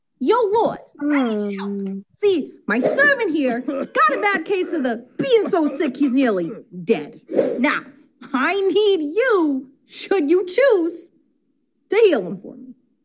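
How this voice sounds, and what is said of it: Deliberately bad put-on accent. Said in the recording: “that was a bad accent.”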